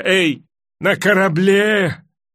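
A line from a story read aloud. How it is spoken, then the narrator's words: Shouting again. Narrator (Russian): закричал он опять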